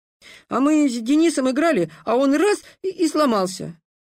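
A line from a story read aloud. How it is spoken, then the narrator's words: Boy babbling. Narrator (Russian): пролепетал мальчишка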